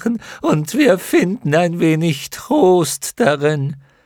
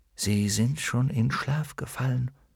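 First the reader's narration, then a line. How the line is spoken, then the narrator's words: Whisper. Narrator (German): flüsterte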